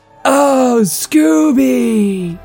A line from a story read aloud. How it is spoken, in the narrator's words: She groaned with pleasure